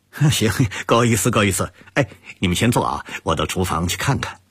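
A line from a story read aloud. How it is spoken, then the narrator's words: Smiling. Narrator (Chinese): 陆泽熙微笑着说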